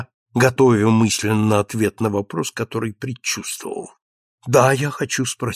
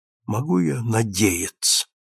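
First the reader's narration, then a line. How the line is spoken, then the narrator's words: Female whisper. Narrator (Russian): прошептала она наконец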